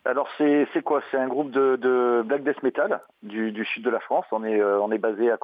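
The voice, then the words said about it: Southern French Marseille accent. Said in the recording (French): “un bel accent du sud, un bel accent de Marseille”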